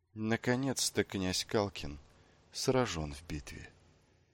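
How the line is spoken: Soft. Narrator (Russian): мягко сказал кто-то

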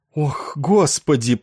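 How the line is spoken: Shuddering groan. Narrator (Russian): простонал содрогнувшись он

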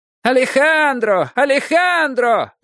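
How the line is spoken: Crowd shouting. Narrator (Russian): закричали в толпе

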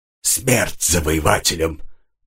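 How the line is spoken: Hoarse wheeze. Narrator (Russian): прохрипел он

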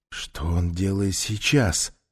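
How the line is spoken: Frightened question. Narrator (Russian): спросил Хилта испуганным тоном

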